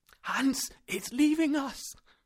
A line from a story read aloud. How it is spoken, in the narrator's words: I cried